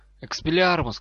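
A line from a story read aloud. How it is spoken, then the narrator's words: Shout, forcing steady voice. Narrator (Russian): крикнул Драко, стараясь, чтобы его голос не дрогнул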